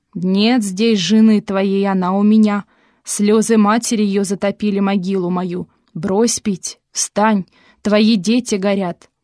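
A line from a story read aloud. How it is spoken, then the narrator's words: Rumbling voice. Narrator (Russian): пришелица, грозно стуча посохом, зарокотала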